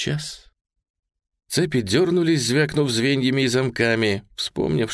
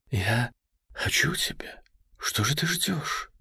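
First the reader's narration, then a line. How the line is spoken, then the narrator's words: Girl, near whisper. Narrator (Russian): сказала девушка почти шепотом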